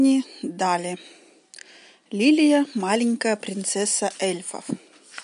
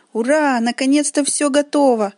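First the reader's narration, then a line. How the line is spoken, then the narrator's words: Exclamation. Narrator (Russian): воскликнула Лилия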